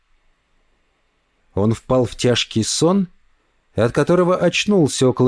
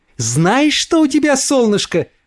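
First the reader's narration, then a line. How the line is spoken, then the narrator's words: Exclamation. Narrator (Russian): воскликнула она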